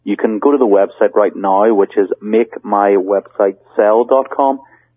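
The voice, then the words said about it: Noticeable non-native accent. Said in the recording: “my accent sometimes confuses people”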